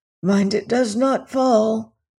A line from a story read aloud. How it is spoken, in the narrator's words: panted Syme